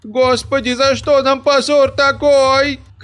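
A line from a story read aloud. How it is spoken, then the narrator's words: Shouting. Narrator (Russian): кричала Рататиха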